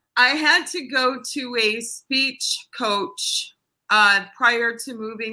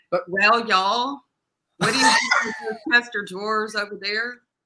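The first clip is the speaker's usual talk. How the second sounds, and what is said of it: Put-on Arkansas Southern accent. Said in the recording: “if you had to play a girl from Arkansas, can you bring the accent back? ... Let me hear some of it.”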